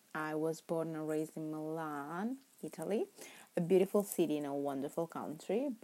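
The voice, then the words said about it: Italian accent in English. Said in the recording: “my terrible, terrible accent ... English is not my first language. In fact, I am Italian.”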